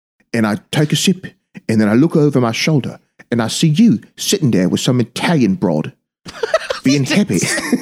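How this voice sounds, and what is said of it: Bad Michael Caine impression. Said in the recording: “a really bad Michael Caine impersonation”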